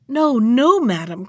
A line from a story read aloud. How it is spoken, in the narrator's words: cried the poor clerk of the kitchen, all in tears